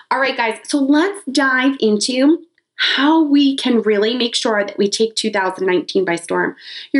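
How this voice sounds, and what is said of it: Sick-sounding voice. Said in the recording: “as you can probably tell from my voice a little bit, was sick this past week”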